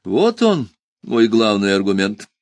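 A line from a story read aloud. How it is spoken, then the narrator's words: Cheerful speech. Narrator (Russian): весело сказал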